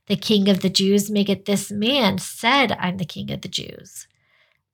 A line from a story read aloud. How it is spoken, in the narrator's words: Pilate said